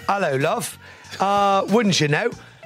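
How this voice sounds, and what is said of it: Put-on London-style accent. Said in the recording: “You got a little accent. Ever since you've gone to London, you seem like you sound a little different.”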